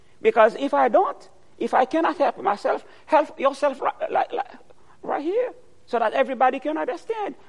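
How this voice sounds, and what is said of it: Strong foreign accent. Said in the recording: “you have a strong accent ... I've got a problem of accent because my accent is not your accent.”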